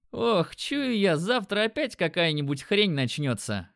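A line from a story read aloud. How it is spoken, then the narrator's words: Chuckling. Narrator (Russian): хохотнул Димон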